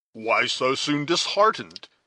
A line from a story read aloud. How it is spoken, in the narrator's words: he exclaimed